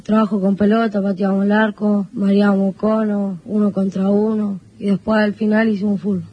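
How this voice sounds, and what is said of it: A young child's voice. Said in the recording (Spanish): “La voz de niño todavía”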